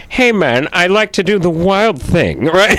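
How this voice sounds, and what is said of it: Imitates another person's voice. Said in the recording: “doing Sammy Davis Jr. As Tone Loc ... you do a good impression.”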